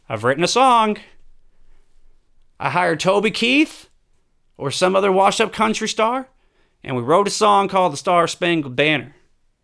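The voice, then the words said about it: Trump impression with southern accent. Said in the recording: “Trump has a southern accent with me”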